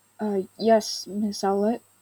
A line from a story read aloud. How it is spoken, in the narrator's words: he stammered in reply